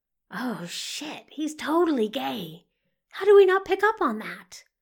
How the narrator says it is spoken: whispers Sean frantically

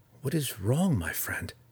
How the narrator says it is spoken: Drizzt asked softly

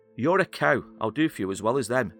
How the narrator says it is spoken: Philbin shouted to her

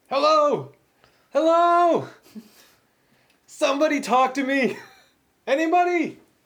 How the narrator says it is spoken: you shouted

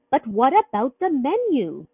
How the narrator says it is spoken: she shrieked

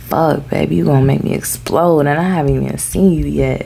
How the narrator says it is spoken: Cain managed to say, his voice strained

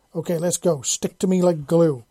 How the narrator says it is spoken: Fuller yelled

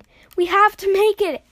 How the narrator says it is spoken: Ash yelled

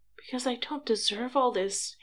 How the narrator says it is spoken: Harry whispered

